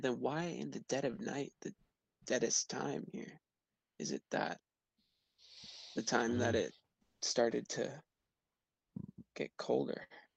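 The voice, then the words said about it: Loud whisper. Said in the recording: “I'm kind of like whispering this, but like loud enough that you can hear.”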